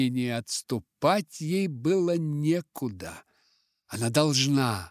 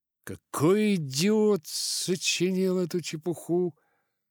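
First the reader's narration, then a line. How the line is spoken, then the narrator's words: Indignant. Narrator (Russian): возмутился Дик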